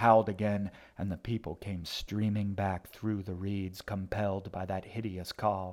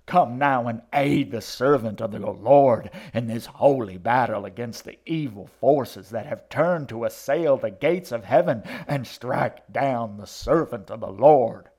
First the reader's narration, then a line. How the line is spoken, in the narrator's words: she shrieked out